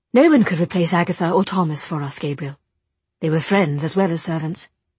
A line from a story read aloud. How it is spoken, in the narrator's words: Jem said quickly